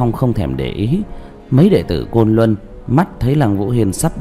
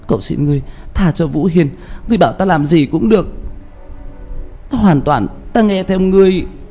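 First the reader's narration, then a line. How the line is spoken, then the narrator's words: Desperate wailing sobs. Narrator (Vietnamese): Liễu Như Như hét lên thảm thiết, chỉ biết gào khóc nức nở, nói với Đạo Phong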